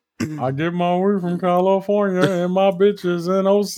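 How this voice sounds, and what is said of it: Muffled singing imitating another singer. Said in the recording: “Don't do the voice ... That's Giveon ... He has a rock in his mouth and he can't get it out. So that's what he has to sing to get it out or something. That's what he sound like ... Why would you do the voice? That's terrible”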